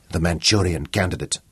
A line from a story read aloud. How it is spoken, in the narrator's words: he hissed